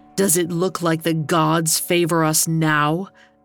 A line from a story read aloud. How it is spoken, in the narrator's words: Aeneas asked his father bitterly